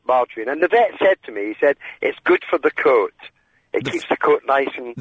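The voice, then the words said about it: Gentle Scottish accent. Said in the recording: “I like yours. It sounds very gentle, which is nice. ... My Scottish accent.”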